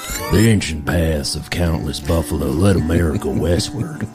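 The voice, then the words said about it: Put-on country accent. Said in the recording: “I should do this in a country voice.”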